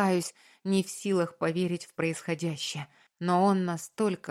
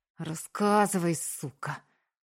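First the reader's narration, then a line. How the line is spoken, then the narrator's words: Drunk, rough, through teeth. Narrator (Russian): цедит пьяно, грубо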